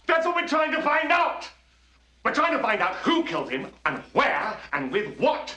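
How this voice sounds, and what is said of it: Shouting. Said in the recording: “There's no need to shout!”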